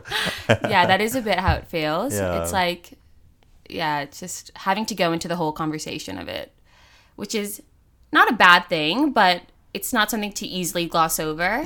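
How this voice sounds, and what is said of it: Distinct non-local accent. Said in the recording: “they definitely notice my accent ... It's very distinct.”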